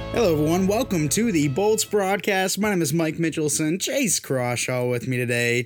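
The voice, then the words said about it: Hoarse, worn-down voice. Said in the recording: “Why are you speaking so animated? ... my voice is having a problem right now ... my voice is like just worn down and just beaten and bruised and battered”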